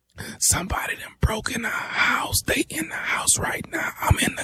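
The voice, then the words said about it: Quiet whispering voice. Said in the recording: “speak up. I can't hear you ... why in the hell are you whispering?”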